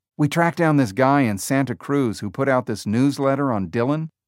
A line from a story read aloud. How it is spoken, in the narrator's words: Jobs said